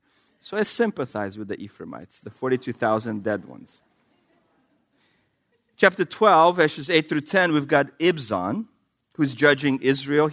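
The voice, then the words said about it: Russian accent. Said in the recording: “I don't have a lisp, but I have a Russian accent.”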